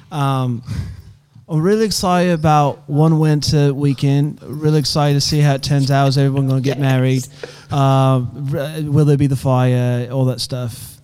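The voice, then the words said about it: Put-on British accent. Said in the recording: “I've been working on a British accent ... for a while ... give me some pointers, and then that way I can stop being bad at it ... Was it rubbish?”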